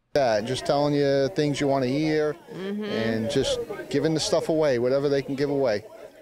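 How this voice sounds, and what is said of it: Thick South Carolina accent. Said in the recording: “it's hard to understand you through that thick South Carolina accent”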